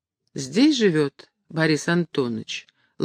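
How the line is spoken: Affectionate question. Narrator (Russian): ласково спросила Поленька

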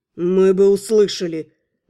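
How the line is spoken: Through clenched teeth. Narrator (Russian): процедил принц

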